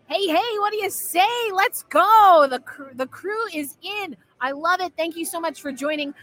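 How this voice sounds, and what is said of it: Loud, near-shouting excited voice. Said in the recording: “I apologize if I'm screaming too loud, but I'm having a good time”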